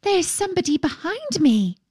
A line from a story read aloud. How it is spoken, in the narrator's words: cried the princess